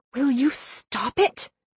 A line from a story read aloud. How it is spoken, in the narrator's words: I whispered